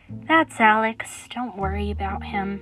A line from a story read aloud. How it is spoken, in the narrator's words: Julie sighed and said